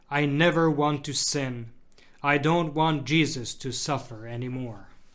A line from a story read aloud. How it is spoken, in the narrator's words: would murmur